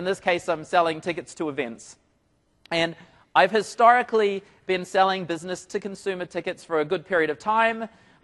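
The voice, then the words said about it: New Zealand accent. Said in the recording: “So I'm from New Zealand. Hopefully you can catch up with the accent.”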